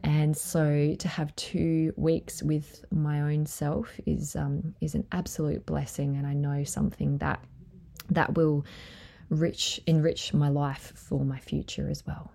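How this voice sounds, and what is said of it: Teary, emotional voice. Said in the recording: “I'm getting teary”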